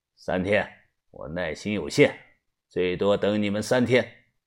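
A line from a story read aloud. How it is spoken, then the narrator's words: Cold, frowning. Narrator (Chinese): 田三九皱着眉，冷声的说道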